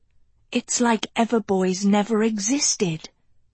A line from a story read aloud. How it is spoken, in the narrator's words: whispered Agatha